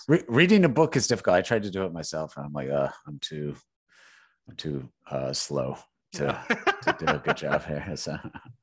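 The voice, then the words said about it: Smooth, sultry voice. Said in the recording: “You got a great smooth, sultry voice”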